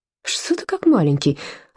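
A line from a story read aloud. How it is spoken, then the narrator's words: Reproachful, barely audible. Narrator (Russian): упрекнул его Пауль и чуть слышно закончил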